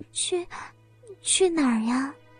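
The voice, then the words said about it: Quiet, hesitant whisper. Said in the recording (Chinese): “小声的问道”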